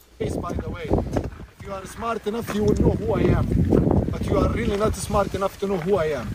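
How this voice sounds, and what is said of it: Middle Eastern accent. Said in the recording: “this is a Middle Eastern accent that, without a doubt, is a Middle Eastern accent”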